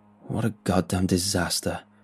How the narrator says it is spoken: Mark said bitterly

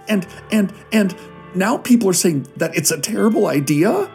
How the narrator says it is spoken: they said through blustering sobs

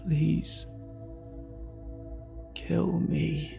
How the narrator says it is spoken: he wheezed

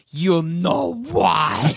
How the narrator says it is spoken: leans down into its ear and hisses

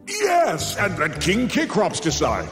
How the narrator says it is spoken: Zeus bellowed, relieved he once again could pass the buck

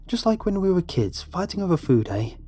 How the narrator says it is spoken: she chuckled

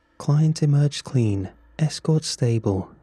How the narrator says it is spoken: said

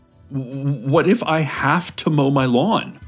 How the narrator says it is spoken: a voice wailed

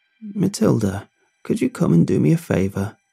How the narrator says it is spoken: Bobby croaked from upstairs

